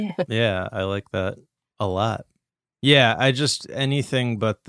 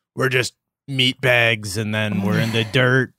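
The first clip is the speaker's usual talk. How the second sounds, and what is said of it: Mocking Gen X atheist voice. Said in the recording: “my impression of atheists ... a big Gen X”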